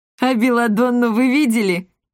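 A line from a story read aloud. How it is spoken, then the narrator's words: Short laugh. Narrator (Russian): хохотнул Акаций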